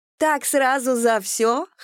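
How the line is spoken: Chuckle. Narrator (Russian): хохотнула Ольга

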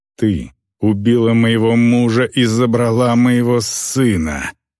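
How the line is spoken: Growl, orc woman. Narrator (Russian): прорычала орка

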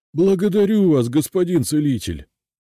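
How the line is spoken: Joyful shout. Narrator (Russian): радостно выкрикнул дворник

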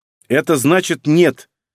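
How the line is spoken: Angry young woman. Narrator (Russian): зло сказала девушка

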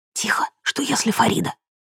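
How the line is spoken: Shushing whisper. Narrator (Russian): Лейла шикнула и сказала шепотом

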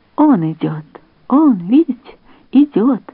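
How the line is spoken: Exclaimed. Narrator (Russian): воскликнул Хризолин

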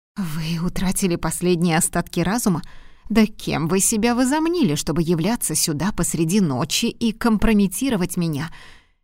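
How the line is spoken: Indignant whisper. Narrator (Russian): Возмущенно прошептала она

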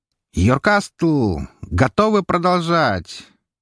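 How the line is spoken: Loud question in Elvish. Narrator (Russian): На чисто эльфийском громко поинтересовался я

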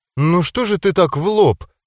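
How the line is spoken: Hesitant indignation. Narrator (Russian): неуверенно возмутилась девушка, в которой течет кровь ангелов

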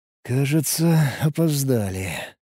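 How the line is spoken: Sighing. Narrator (Russian): вздохнул я

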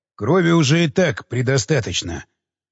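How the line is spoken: Grim speech. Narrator (Russian): мрачно молвил Кондаков

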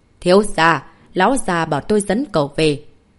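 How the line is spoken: Slow, stern. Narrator (Vietnamese): Hắn chậm rãi nghiêm giọng nói

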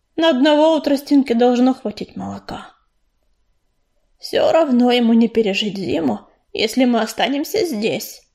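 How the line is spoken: Gloomy remark. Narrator (Russian): мрачно заметила Кисточка

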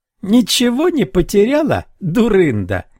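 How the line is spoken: Shouted, then laughing. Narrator (Russian): крикнул он и рассмеялся

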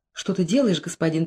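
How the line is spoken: Whisper. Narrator (Russian): прошептала Кама

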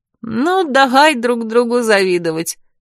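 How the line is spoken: Laughing out loud. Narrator (Russian): расхохоталась Лёля

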